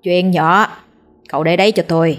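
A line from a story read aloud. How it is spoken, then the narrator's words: Sly smiling old man. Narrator (Vietnamese): lão thầy lùng mỉm cười gian trá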